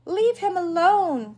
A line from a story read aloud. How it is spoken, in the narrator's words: Clara shouted at the wicked mice